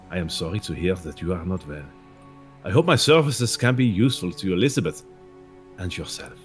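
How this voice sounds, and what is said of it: Reads a letter in a character accent. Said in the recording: “Glad we heard it in his accent.”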